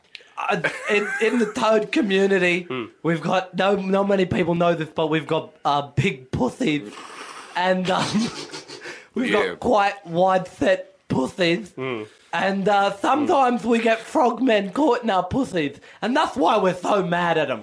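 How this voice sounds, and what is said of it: Lisping toad character voice. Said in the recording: “is the lisp to do with ... Being a toad ... I'm just not very good at characters ... my standard character voice”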